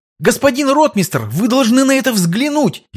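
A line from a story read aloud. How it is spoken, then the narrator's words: Near shout, young nobleman. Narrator (Russian): едва не выкрикнул подскакавший к Острожскому молодой шляхтич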